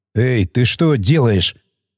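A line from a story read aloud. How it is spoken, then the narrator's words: Alarmed whisper, machine gunner. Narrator (Russian): Встревоженно прошептал пулеметчик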